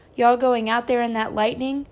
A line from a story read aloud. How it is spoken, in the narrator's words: cried Christopher John